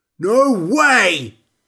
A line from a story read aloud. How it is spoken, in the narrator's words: shouted Larry, just above me